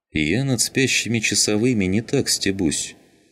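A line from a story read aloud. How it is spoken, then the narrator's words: Calm, soldier. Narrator (Russian): спокойно проговорил военный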